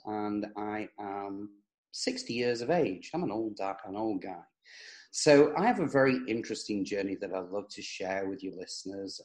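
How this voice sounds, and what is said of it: English accent. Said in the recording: “I was born in England, as you can probably tell from the accent”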